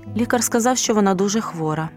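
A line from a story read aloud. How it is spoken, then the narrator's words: Father's sharp reply. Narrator (Ukrainian): різко відповів батько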